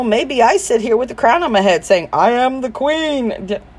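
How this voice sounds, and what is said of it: New Jersey accent. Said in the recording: “that Jersey accent”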